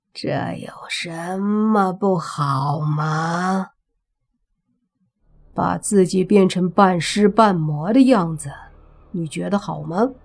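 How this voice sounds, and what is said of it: Hoarse, raspy character voice. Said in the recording (Chinese): “那尸体从口里发出沙哑的声音说”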